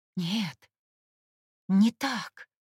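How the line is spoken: Strained, hoarse rasp. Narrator (Russian): Морос натянуто прохрипел, на его губах появилась кровь

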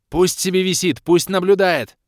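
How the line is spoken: Shouting. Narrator (Russian): крикнула Кира

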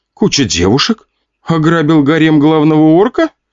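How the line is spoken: Giggling. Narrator (Russian): хихикала та

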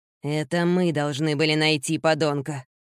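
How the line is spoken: Growled. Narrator (Russian): прорычал Питер

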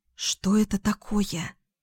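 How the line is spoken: Whisper. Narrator (Russian): прошептала Лу

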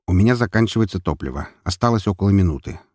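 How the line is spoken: Calm statement. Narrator (Russian): спокойно заявил мне Драгомир

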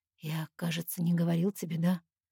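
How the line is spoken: Whispered question. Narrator (Russian): шёпотом спрашивает он

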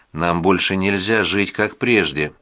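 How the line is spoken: Plain. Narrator (Russian): сказала она

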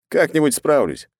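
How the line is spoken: Wry snort. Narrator (Russian): хмыкнул я

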